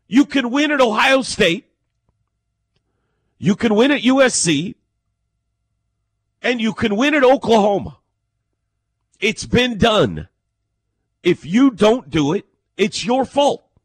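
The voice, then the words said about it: Yelling, loud raised voice. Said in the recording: “I don't know why I'm yelling right now, but I started yelling at some point in this.”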